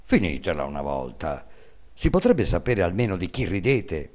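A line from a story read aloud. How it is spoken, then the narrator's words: Resentful voice. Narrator (Italian): Il babbo, che non sapeva il motivo di questo gran buon umore, disse allora con voce risentita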